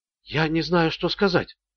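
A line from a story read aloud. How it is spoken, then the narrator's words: Whispered. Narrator (Russian): прошептала Джоди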